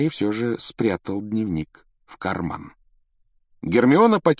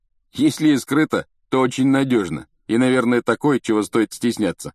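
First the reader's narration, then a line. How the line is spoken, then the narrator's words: Snorting. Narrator (Russian): хмыкнул Рон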